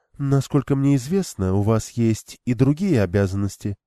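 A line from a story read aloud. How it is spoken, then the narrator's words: Calm objection. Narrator (Russian): спокойно возразила она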